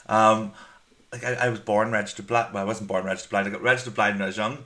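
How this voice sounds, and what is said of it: Strong Northern Irish accent. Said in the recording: “I'm from Northern Ireland with the accent ... So strong.”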